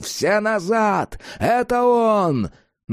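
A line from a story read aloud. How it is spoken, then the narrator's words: Yelling. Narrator (Russian): Джек заорал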